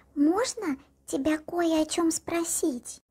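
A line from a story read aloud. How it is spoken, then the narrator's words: Whispered. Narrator (Russian): прошептала Элла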